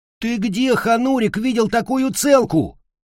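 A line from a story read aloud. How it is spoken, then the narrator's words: Loud bellow. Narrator (Russian): заорал он на весь коридор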